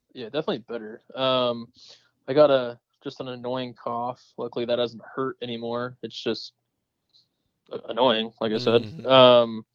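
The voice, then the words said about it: Congested, nasal sick voice. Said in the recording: “I don't know if you can tell it in my voice ... You sound better ... still dealing with the nasally congestion issues”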